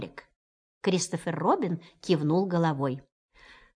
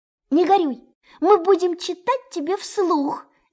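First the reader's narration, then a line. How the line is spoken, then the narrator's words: Rabbit's cheerful exclaim. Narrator (Russian): весело воскликнул кролик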